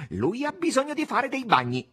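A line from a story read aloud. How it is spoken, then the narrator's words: Shouted. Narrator (Italian): gridò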